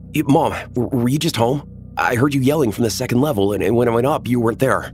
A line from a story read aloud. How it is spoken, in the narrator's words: I said frantically